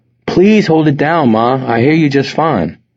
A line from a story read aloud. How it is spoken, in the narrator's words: Wes pleaded, feeling his head begin to pound again